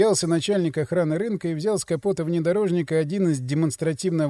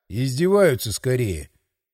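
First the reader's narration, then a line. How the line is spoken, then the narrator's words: Muttered. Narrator (Russian): Пробурчал я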